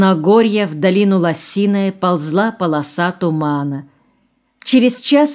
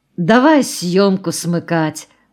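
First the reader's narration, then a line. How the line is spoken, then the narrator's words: Sighed. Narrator (Russian): вздохнул Баклаков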